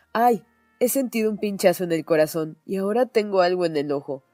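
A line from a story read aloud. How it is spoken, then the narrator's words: Sudden exclaiming. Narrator (Spanish): De repente, Kay exclamó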